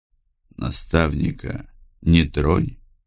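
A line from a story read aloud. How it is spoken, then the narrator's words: Quiet request. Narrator (Russian): Попросил негромко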